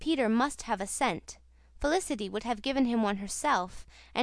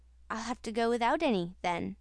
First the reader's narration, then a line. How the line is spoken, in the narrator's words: said Peter